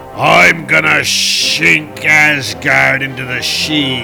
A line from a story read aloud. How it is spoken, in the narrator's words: he bellowed